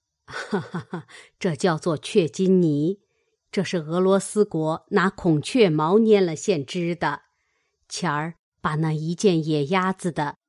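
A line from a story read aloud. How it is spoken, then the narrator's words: Laughing. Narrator (Chinese): 贾母笑道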